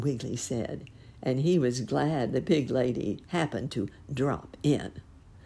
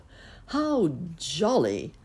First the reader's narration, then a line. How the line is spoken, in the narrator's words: laughed the squiggle bugs